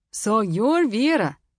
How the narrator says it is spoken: he said in a thick accent

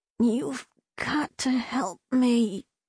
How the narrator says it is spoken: she said through gritted teeth

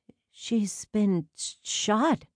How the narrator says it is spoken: Charlene murmured in disbelief

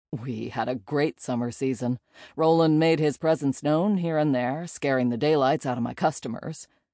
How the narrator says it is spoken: Jay chuckled

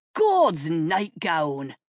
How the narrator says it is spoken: roared James

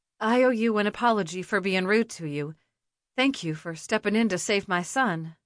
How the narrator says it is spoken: she said

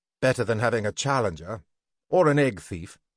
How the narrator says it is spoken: Algeron replied quickly

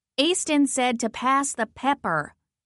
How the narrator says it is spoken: raised my voice and said

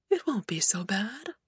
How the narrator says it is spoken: she murmured

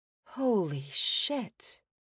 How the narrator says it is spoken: whispered

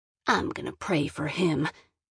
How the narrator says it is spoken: Gran muttered

